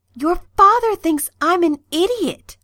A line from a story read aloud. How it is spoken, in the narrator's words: Merlin said urgently, his eyes wild